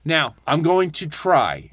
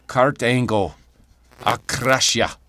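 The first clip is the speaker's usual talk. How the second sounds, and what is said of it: Put-on Scottish accent impression. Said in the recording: “I'm going to try my best Drew Scottish accent ... That was pretty good. That was pretty good.”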